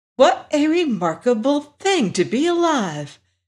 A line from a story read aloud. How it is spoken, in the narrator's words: exclaimed Dorothy